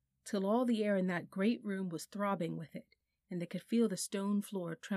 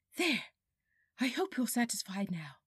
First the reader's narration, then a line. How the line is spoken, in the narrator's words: panted Polly